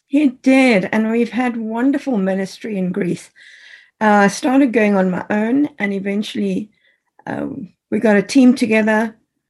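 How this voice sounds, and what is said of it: British accent. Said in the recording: “that wonderful British accent”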